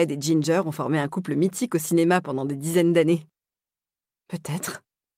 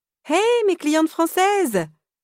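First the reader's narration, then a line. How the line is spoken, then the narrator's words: Exclaiming with big smile. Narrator (French): s'exclame-t-elle avec un grand sourire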